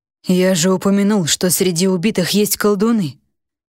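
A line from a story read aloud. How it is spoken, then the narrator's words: King's heavy sigh. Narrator (Russian): тяжело вздохнул король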